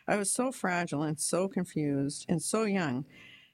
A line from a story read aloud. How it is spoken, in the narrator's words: says Sigler, 44